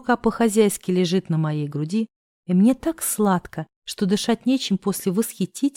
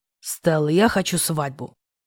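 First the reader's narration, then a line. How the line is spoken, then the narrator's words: Growl right in ear. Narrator (Russian): прорычал мне в само ухо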